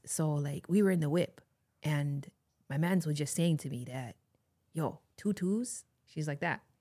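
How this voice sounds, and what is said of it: Subtle, soft Toronto slang impression. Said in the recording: “she definitely has that in her delivery, in her tone ... A pretty spot on impersonation ... it was like subtle. It was soft. It was, but it wasn't over the top”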